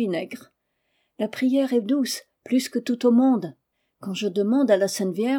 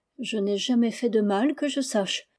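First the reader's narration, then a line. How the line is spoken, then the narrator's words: Timid speech. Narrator (French): dit-elle timidement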